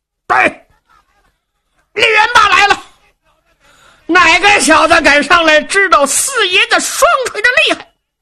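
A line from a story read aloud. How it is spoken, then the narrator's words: Roaring shout. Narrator (Chinese): 李元霸抖丹天喝喊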